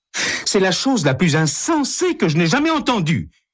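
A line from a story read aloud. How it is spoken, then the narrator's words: Exclaiming. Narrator (French): s'exclame Hélène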